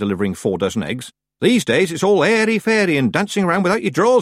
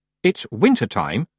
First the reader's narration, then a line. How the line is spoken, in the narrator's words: she said coldly